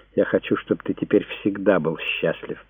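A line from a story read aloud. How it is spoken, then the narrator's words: Whisper. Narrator (Russian): прошептала Диана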